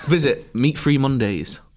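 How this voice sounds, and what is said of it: Poor imitation of another person's accent. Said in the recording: “That was a terrible accent, wasn't it?”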